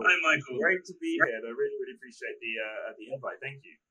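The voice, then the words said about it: English London accent. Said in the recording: “your accent betrays you a little bit. You're from England ... From London”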